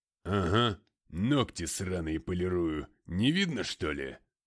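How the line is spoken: Drunken chuckle. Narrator (Russian): Один из пропоиц хохотнул

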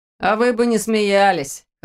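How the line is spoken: Laughing. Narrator (Russian): хохотнул Ваня

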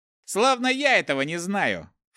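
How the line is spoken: Snorting. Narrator (Russian): фыркнул лучник

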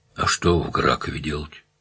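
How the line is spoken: Sighed. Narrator (Russian): вздохнула она

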